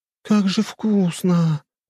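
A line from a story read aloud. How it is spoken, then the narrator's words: Moan of delight. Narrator (Russian): простонала она от восторга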